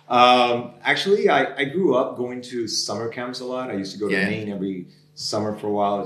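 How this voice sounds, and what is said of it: American Miami accent. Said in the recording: “your American, like, Miami accent”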